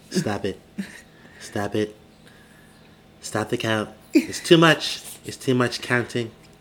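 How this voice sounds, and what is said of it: Imitates another person's voice. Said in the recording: “my Trump impression”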